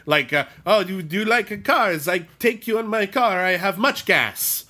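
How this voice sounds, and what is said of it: Thick foreign accent, broken English. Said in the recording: “I'm not sure what country he's from, like Greece or something. He's got a really thick accent, and English is obviously his second language”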